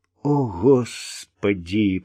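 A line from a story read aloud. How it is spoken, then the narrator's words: Moaning. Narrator (Russian): простонал Вик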